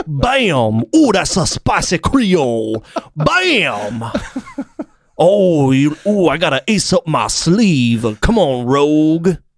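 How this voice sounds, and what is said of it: Put-on Louisiana accent. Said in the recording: “I can do a Louisiana accent.”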